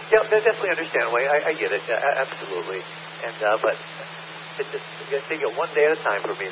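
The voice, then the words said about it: Rough, strained voice. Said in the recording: “my voice is really starting to get a little bit rough again right now, and my nostrils are starting to blow up a little bit”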